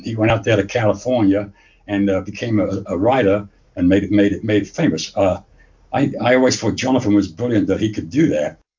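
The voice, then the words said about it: English accent. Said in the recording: “that accent is not Indiana ... I was actually born in England, in a little shithole town in England called Luton ... just a little north of London”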